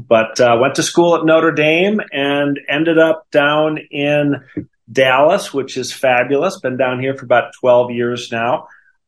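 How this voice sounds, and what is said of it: Wisconsin accent. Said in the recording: “you can still hear that in my voice, the Wisconsin”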